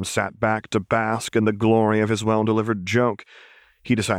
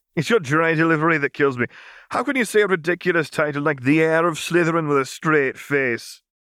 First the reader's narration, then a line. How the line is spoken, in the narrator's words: Hermione was laughing, too